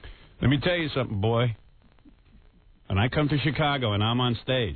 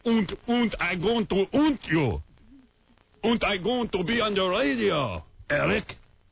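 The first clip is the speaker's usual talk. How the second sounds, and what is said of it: Put-on German accent. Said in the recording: “you'd be talking in a German accent. Right? You'd be talking like this.”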